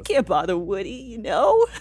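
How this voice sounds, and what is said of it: Rodney Dangerfield impression. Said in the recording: “A great impression of Rodney Dangerfield.”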